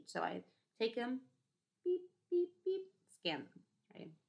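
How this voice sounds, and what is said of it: Imitates a cashier's scanner beeps. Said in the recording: “Really great impression of a cashier, I know.”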